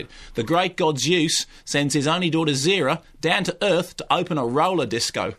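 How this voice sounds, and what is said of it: Put-on Australian accent. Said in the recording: “I'm doing it in Australian accent because this is how Stephen Elliott did it.”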